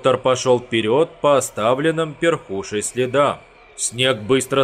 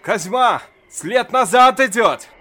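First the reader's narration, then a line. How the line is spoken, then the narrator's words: Shouting. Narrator (Russian): крикнул доктор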